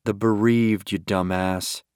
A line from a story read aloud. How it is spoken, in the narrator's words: he muttered